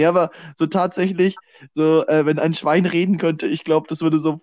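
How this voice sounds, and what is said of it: Usual voice. Nothing is said of it.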